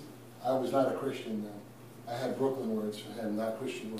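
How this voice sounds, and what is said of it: Usual voice. Nothing is said of it.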